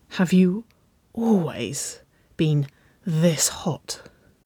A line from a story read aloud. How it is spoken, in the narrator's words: breathed, a little more strained than she intended under the hoarse gravel of her arousal